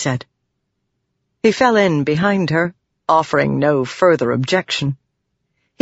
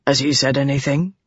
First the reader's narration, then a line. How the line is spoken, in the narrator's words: Dalinar said softly